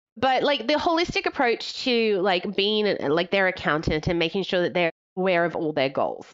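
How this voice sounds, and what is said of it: Australian accent. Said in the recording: “Holistic or holy stick? Because it sounded like holy stick. ... It's the Australian accent. ... I'm your favorite Australian”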